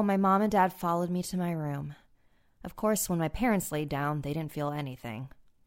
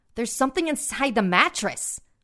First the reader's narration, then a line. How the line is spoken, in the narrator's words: my mom exclaimed